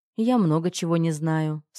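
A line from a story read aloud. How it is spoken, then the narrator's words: Calm. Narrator (Russian): спокойно ответила я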